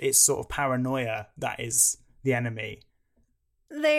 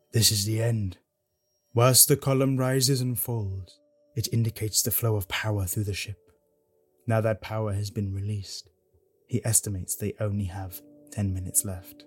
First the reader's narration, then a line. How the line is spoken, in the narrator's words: Very solemnly, the Doctor remarks